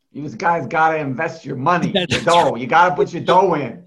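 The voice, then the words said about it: Thick Long Island accent impression. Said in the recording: “Thick Long Island accent ... He says things like”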